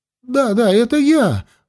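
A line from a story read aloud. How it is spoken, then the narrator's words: Joyful. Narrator (Russian): радостно закивал Маган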